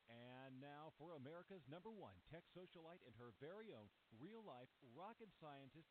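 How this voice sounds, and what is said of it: Announcer-style radio voice. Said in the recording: “your favorite radio voice guy”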